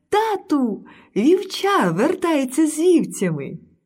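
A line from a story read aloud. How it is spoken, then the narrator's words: Young girl's joyful cry. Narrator (Ukrainian): найменша донька короля радісно крикнула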